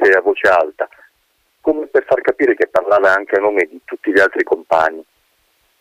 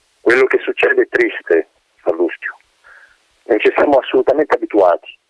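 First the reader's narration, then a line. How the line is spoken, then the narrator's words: Calm voice. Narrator (Italian): continuò il Bernardi con voce pacata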